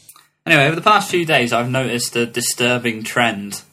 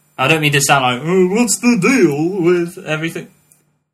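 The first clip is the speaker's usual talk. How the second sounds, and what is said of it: Imitates another person's voice. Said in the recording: “that was a good impression... Of? Jerry Seinfeld... That was terrible.”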